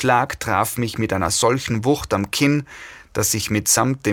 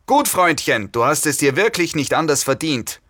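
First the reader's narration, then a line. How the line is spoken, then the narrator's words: Leader's bellow. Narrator (German): brüllte eine mir neue Stimme, die dem Anführer der Gruppe zu gehören schien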